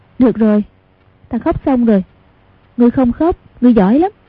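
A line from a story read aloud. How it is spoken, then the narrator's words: Soft laughing speech. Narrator (Vietnamese): Hoàng Dung cười khẽ nói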